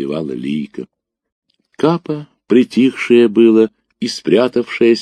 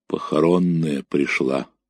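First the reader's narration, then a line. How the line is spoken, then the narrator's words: Quiet, offhand, head down. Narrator (Russian): не поднимая головы, тихо обронила Августа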